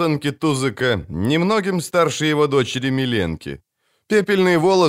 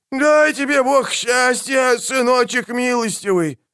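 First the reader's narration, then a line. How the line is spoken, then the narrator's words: Old woman wailing. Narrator (Russian): взвыла бабка Микитка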